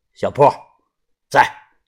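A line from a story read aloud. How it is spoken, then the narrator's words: Cold. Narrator (Chinese): 田三九 冷声的说道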